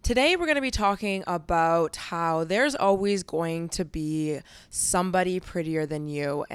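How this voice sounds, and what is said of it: Slightly raspy morning voice. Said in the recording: “my voice is always a little bit rasp... my voice sounds a little bit off”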